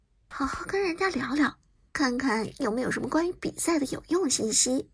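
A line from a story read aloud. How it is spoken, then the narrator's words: Whispered aside. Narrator (Chinese): 杜鹃又小声的在苏哲耳旁补充道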